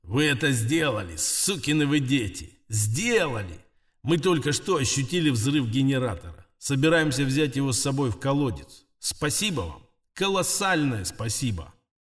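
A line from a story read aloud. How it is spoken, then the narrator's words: Loud purring. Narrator (Russian): Пончик громко замурлыкала мне в ухо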